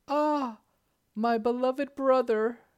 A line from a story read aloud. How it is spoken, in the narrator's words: cried the princess in horror